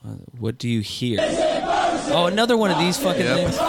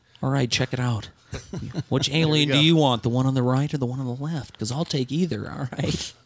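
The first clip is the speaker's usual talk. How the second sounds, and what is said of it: Imitates another person's voice. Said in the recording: “Spot on with your impression.”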